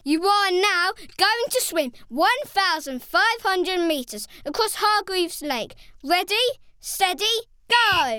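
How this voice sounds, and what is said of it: Loud booming announcer voice. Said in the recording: “continued Mr. Perfect in a loud voice.”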